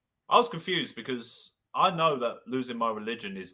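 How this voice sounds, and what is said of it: Usual voice. Nothing is said of it.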